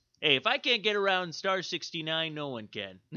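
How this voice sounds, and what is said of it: Imitates a cartoon character's voice. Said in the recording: “my Randall impersonation”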